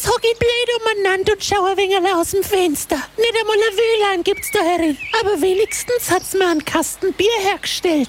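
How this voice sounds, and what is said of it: Franconian German dialect. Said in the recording (German): “Märchen auf Fränkisch.”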